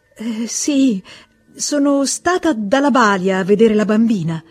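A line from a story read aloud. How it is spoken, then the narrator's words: Stammering. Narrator (Italian): balbettò lei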